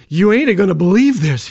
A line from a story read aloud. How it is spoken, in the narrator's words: he panted